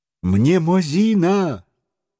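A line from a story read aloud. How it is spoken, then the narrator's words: Exclamation. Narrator (Russian): воскликнул ученый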